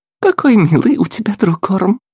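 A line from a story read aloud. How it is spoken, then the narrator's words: Girl's sincere rippling laugh. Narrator (Russian): Искренне и дробно рассмеялась девушка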